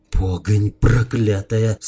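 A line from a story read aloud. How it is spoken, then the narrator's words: Cursing through clenched teeth. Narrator (Russian): сквозь зубы выругался Илья Муромец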